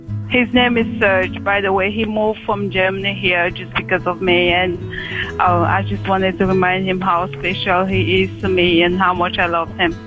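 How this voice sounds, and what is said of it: Pretty strong accent. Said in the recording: “you've got a pretty strong accent.”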